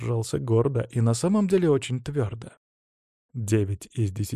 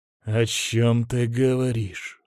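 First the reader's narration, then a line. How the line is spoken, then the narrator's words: Strained breathless exhale. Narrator (Russian): С трудом выдохнул Белов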